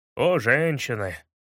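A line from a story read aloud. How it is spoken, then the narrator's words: Sighing. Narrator (Russian): вздохнул Шерлок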